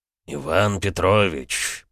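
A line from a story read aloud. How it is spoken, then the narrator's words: Through gritted teeth. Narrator (Russian): процедил князь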